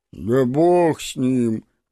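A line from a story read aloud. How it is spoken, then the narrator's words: Gloomy deep bass. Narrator (Russian): пробасил уныло Гребешков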